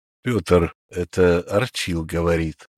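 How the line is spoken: Crushed, despondent voice. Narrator (Russian): убитым голосом сказал

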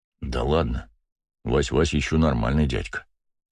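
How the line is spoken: Quiet. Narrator (Russian): тихо проговорил Бегемот

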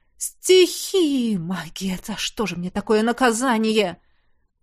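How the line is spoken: Whispered. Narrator (Russian): прошептал

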